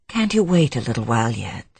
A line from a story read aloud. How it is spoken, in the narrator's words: She said tenderly